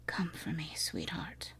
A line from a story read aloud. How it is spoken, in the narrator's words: he whispered